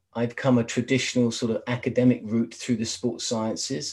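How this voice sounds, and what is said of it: London English accent. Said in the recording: “obviously my accent, I'm originally from London in England”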